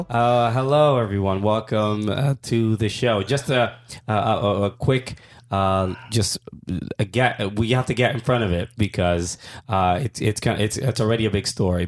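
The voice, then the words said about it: Rough, worn-out voice. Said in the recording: “my voice is a little weird ... It's a little rough ... My voice is pretty much shot”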